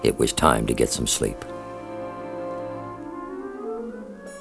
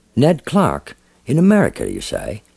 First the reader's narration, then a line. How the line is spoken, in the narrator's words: sleepily